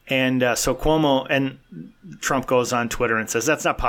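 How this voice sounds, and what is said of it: Usual voice. Nothing is said of it.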